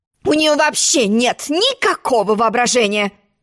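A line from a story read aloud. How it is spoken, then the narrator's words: Grumbling mutter. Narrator (Russian): буркнула черная королева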